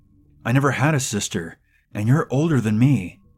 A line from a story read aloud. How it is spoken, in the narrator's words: cried, so confused